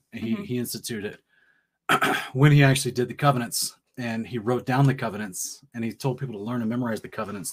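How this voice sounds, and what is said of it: Hoarse, strained, fading voice. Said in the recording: “I'm losing my voice here.”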